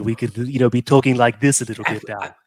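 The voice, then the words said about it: Imitates Stewie cartoon character voice. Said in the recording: “make it like Stewie”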